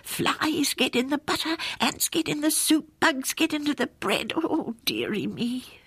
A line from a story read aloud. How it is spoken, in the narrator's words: muttering